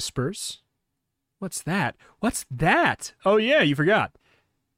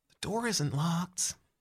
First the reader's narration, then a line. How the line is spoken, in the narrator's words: Trevor whispers